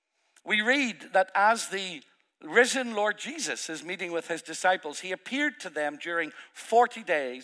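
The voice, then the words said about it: Irish accent. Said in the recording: “2 Irish accents, one after another ... this accent”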